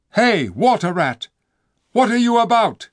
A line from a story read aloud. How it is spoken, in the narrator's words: cried the king